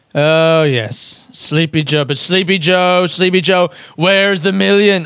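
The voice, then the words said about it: Donald Trump impression. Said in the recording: “do a Donald Trump impression ... he just has that inflection”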